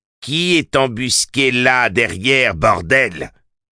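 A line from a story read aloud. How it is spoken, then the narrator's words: Growled. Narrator (French): grogna Finley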